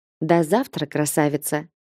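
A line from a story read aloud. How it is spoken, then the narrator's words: Whispered. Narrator (Russian): прошептал Рэнс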